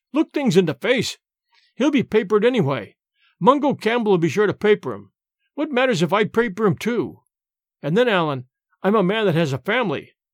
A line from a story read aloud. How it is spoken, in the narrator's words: cried James